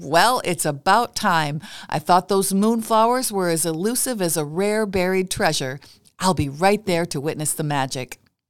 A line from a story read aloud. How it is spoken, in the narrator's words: His voice filled with laughter, Ron replied